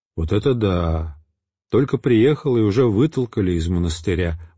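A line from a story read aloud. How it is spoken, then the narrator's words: Indignant, glum. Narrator (Russian): возмущался, уныло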